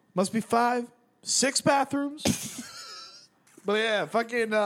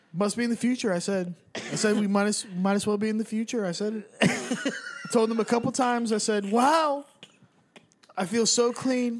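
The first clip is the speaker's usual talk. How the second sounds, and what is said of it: Bad Donald Trump impression. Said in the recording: “probably the worst Trump impression that's ever been done... Terrible.”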